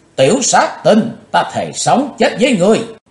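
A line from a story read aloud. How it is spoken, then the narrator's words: Loud shout. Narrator (Vietnamese): Ả hét to lên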